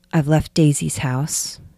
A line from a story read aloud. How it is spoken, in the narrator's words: she said